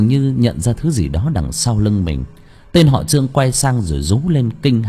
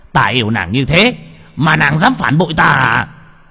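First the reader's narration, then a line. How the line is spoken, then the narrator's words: Shouting. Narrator (Vietnamese): Hắn hét lên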